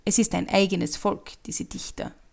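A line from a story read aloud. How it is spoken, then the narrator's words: Plain. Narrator (German): sagte der Schreiber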